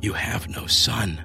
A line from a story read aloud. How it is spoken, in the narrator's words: those violent surges of remembering whispered